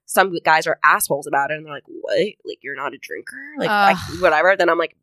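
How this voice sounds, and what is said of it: Imitated voice of a dismissive guy. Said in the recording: “That's a great impression of the voice, though. Yeah, that's exactly what you're talking about.”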